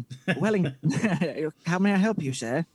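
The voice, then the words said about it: Posh butler character voice. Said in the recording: “Like a butler. He sounds like he works for Batman.”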